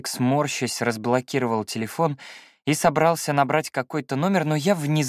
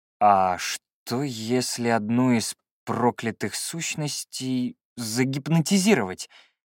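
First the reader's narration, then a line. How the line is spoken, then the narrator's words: Hesitant drawl. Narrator (Russian): помедлив протянул я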